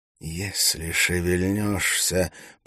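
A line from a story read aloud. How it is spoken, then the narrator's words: Hissed close to ear. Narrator (Russian): прошипел Валентин над его ухом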